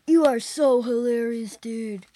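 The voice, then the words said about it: California surfer accent. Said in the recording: “that's even a surfing accent, a California kind of surfing accent.”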